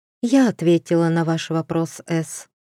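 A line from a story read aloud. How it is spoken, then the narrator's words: Weary countess. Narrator (Russian): устало сказала графиня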